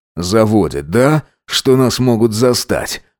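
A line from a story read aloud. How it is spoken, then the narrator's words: Breathy intimate whisper. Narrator (Russian): Выдохнул ему в шею Макс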